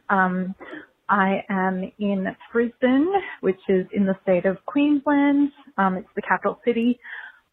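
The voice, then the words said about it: Australian accent. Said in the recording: “if you can't already tell from my accent, I'm Australian”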